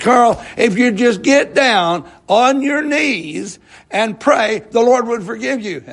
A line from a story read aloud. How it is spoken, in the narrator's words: he pleaded, and he finally, in frustration, he said